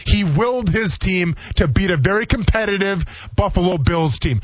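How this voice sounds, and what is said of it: Raised, energetic, building voice. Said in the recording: “my voice is getting raised a little bit. I'm going to get a little more energy, and we're starting to have a little crescendo”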